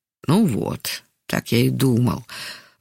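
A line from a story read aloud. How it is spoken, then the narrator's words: Sighing mutter to himself. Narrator (Russian): вздохнув, пробормотал про себя Яков Иванович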